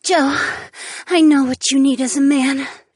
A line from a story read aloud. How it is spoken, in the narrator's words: the redhead gasped